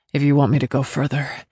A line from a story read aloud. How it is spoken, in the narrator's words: said between breaths